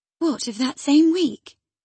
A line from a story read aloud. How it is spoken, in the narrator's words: she exclaimed